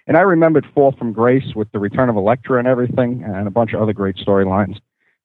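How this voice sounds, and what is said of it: Long Island accent. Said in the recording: “Where do I live? Long Island. ... Oh, the accent.”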